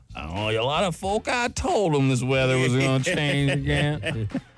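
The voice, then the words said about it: Old Western man, southern accent. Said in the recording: “I just turned into the old guy sitting outside the saloon ... more of a southern accent. I was doing like a saloon movie idea”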